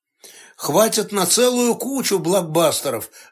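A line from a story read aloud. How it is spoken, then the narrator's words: Sigh. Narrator (Russian): вздохнул Алан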